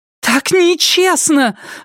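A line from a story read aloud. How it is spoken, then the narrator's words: Shout. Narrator (Russian): закричала Полли в пустую комнату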